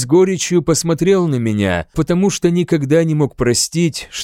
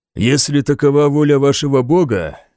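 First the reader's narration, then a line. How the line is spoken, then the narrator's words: Rough reply. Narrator (Russian): грубо ответил я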